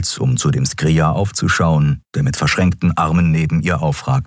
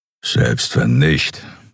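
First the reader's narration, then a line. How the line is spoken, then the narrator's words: Grumbling. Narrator (German): brummte er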